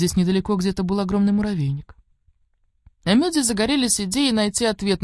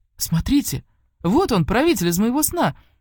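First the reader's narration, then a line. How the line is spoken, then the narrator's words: Exclaiming. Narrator (Russian): воскликнул Сейки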